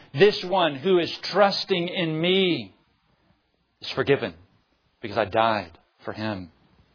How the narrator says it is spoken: plead, saying

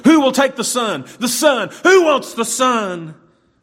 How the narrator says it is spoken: the auctioneer kept yelling

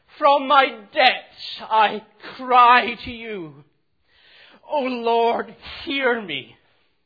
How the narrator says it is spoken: from the depths of his being, cries out

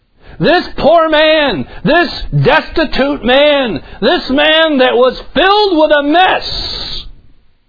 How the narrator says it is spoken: he cried to the Lord

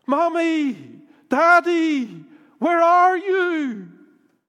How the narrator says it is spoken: your little son screaming at the top of his lungs

